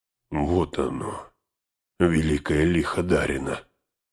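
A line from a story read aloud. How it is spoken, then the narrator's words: Horrified whisper. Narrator (Russian): прошептал он и, выронив топор, закрыл лицо обеими руками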